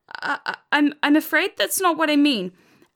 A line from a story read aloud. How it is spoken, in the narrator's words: Alex spluttered